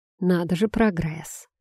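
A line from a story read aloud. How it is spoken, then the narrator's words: Calm, steady voice. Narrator (Russian): Голос звучал спокойно, без дрожи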